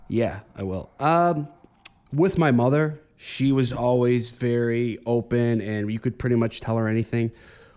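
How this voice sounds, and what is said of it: Chicago Italian-American accent. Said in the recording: “the Italian in you, I love, I love the accent that you have. You know, being in Chicago”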